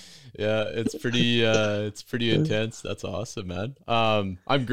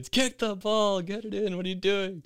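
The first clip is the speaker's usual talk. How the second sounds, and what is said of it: Yelling. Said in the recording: “I'm yelling at these kids”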